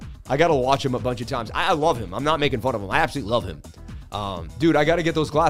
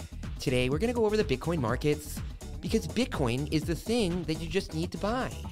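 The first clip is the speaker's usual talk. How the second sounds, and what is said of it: Imitates another person's voice. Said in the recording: “my best Lark impression”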